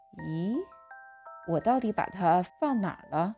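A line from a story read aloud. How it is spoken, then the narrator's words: Anxious muttering. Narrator (Chinese): 爸爸的样子好像很着急，嘴里嘟囔着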